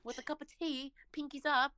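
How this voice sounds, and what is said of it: Put-on British accent. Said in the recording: “British accent. ... We can always have a British accent. It's British love. ... I like your accent.”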